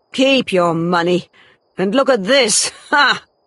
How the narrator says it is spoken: said Troy with a cruel laugh

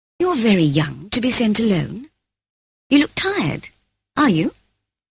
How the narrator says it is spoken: she asked, putting her hand kindly on my shoulder

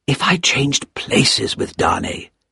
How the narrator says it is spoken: he whispered to himself

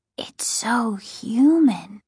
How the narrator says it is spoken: Casey whispered

